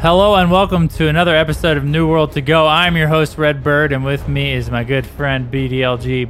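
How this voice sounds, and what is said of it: Tired-sounding voice. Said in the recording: “You sound a little tired”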